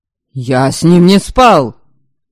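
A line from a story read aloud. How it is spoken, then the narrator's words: Angry, tearful snap. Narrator (Russian): Зло огрызнулся парень, кулаком утирая слезы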